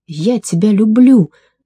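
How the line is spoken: Shouting. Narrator (Russian): закричал он

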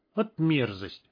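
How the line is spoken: Snorting. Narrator (Russian): фыркнул Гныш

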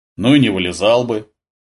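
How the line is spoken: Grumbling. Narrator (Russian): проворчал Гурьянов

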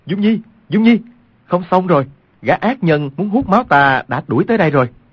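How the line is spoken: Loud breathless calling out. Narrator (Vietnamese): Quách Tĩnh đã chạy tới ngoài cửa khách điếm, cao giọng kêu lên

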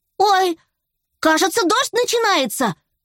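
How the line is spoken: Frightened shout. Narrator (Russian): закричал перепуганный поросенок

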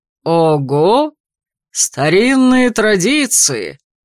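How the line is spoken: Cheerful emperor exclaiming. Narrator (Russian): весело воскликнул император

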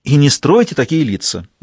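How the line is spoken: Indignant. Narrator (Russian): возмущенно заметила Фаустина

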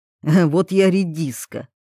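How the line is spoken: Snorting. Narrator (Russian): хмыкнул вольных

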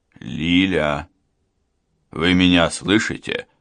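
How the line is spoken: Quiet call. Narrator (Russian): негромко позвал Гуров

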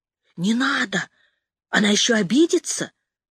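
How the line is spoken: Whisper. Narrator (Russian): услышала я чей-то шепот

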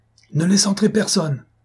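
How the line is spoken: Exclamation. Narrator (French): s'écria Cloarec

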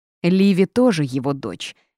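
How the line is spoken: Woman barking sharply. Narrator (Russian): рявкнула женщина

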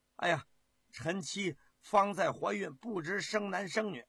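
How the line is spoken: Hurried declaration. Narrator (Chinese): 胡广 急忙的申明

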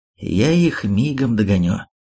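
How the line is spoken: Strangely calm voice. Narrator (Russian): каким-то странным спокойным голосом заявил

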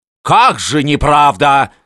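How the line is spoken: Shouting. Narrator (Russian): кричал Неплюев

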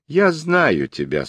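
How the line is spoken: Calm reply. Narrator (Russian): спокойно отвечал оборотень

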